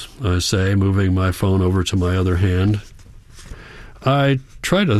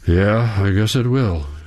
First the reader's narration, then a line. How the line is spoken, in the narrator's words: he says, letting out a deep sigh